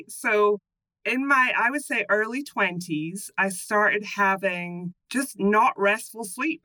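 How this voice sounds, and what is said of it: Scottish accent. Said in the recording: “explaining my accent, that I'm from Scotland originally”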